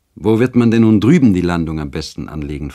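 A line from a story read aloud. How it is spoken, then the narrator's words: Plain question. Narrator (German): fragte Eduard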